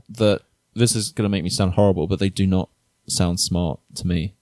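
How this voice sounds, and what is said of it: British accent. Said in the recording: “oh my God, British accent. Oh, I love it. You sound so smart.”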